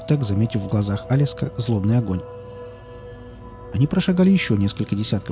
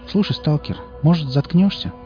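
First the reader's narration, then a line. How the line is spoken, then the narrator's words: Tired. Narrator (Russian): устало сказал Алиск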